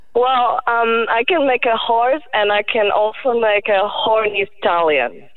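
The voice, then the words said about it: Polish accent. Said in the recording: “I love the way you speak. What's your accent? ... It's Polish. I'm from Poland.”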